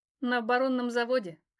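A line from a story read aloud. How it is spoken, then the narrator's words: Snort. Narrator (Russian): хмыкнула я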